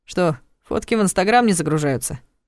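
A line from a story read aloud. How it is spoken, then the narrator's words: Smirking snort. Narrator (Russian): хмыкнул Ваня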